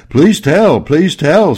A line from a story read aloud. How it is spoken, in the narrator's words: several rats yelled